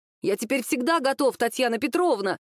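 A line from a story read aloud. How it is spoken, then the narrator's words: Loud, furious student. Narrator (Russian): громко и даже с яростью заявил ученик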